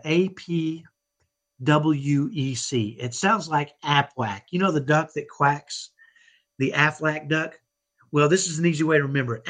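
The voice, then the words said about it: Texan accent. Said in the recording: “I know I have a Texan accent. I grew up in Dallas, and I have what I call a ghetto Texas accent.”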